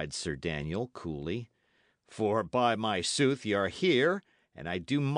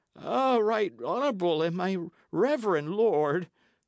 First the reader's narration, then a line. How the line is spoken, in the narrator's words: the man cried